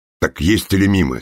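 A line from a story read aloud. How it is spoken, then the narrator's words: Angry question. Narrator (Russian): сердито спросил Лыков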